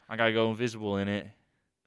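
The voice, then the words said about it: Put-on Australian accent. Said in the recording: “That was a great voice. That was a great impression. ... Okay, you just did an Australian accent.”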